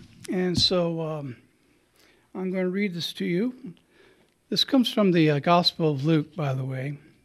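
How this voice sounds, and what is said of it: Troubled, strained voice. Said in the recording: “My voice is still giving me a bad time”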